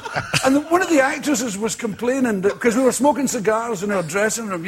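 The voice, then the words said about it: Distinctive accent. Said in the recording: “I love his accent.”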